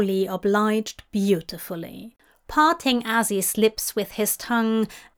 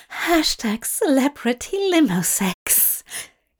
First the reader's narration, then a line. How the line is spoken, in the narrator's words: gasped as he came